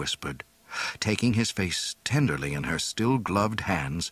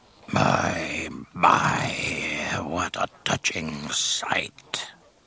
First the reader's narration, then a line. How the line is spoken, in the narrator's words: Jabba purred